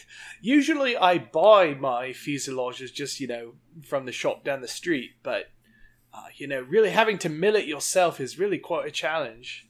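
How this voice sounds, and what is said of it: Good put-on British accent. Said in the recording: “That's a pretty good accent ... We've watched a lot of Great British Baking.”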